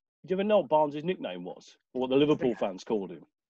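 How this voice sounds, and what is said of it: Southern English accent. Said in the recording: “my lovely Southern accent”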